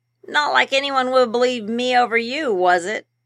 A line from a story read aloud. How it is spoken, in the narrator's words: Obi chuckled